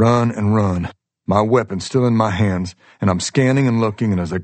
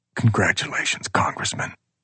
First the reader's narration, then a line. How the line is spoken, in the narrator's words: whispering